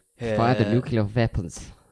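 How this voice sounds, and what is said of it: Bad put-on Russian accent. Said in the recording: “Russian-sounding dude... That's a terrible accent... It's the first bad one you've ever done”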